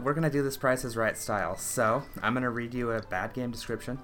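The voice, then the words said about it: Out of breath. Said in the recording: “I'm out of breath because I just ran”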